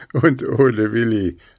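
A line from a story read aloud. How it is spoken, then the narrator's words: Laughing. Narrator (German): lachte Puh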